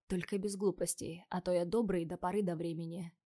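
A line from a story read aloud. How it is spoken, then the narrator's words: Quiet, into ear. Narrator (Russian): тихо на ухо сказал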